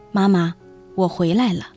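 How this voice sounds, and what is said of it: Quiet, timid voice. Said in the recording (Chinese): “我就赶紧低头，小声说”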